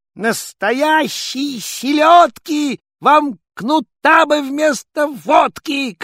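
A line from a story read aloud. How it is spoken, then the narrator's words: Angry shout. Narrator (Russian): крикнул ёрш со всех сердцов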